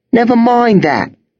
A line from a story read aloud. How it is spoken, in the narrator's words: cried